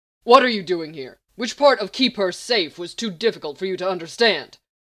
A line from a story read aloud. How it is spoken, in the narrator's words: Lex roared